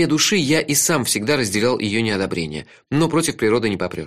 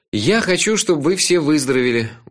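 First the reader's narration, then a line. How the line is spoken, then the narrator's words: Tired. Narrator (Russian): устало сказал я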